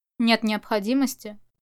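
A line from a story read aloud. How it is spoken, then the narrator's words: Cold. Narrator (Russian): холодно сказал Чу Ваньнин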